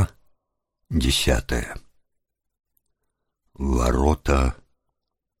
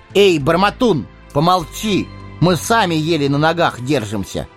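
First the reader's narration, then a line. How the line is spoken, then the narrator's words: Sharp rebuke. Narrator (Russian): прикрикнул на него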